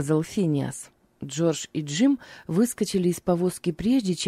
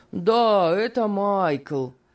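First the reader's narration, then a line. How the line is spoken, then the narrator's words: Raised-voice shout. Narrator (Russian): подтвердил Финиас и, возвысив голос, крикнул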